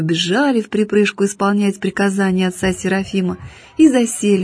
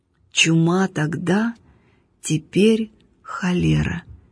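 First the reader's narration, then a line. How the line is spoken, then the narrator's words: Slow, reminiscing. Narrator (Russian): медленно проговорил пустынник, как будто припоминая про себя что-то давно-давно минувшее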